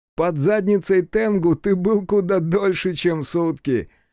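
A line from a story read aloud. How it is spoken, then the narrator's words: Laughing. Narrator (Russian): смеялся Хицу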